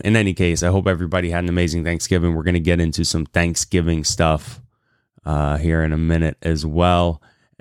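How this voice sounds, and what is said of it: Hoarse, raspy voice from a cold. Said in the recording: “I sound a little hoarse. Been fighting a cold ... sound a little raspy”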